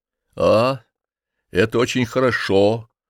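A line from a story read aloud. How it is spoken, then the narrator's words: Gloomy. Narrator (Russian): сказал он мрачно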